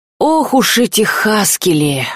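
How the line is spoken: Sighing. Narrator (Russian): вздохнул Крысолов

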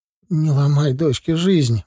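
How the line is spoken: Pleading. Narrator (Russian): взмолилась она

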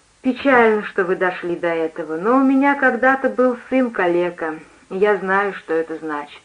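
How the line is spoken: Warm, smiling, tender. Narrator (Russian): Она улыбнулась и ласково сказала

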